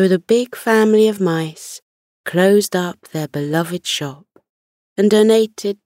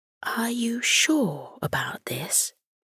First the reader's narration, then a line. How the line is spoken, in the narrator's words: she whispered to Morty, still a little unsure as to whether he was crazy or simply adventurous